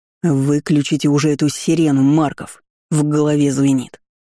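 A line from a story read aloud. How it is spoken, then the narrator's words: Irritated command. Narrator (Russian): Такер раздраженно скомандовал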